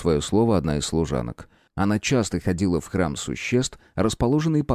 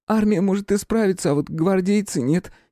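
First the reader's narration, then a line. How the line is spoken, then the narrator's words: Giggling chatty maid. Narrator (Russian): хихикнула разговорчивая горничная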